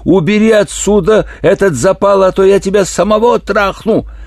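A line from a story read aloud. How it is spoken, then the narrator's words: Yell. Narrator (Russian): он заорал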